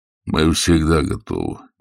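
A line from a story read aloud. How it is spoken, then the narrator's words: Deep calm bass. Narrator (Russian): густым спокойным басом сказал Слепов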